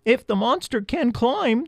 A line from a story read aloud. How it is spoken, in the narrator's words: they squeaked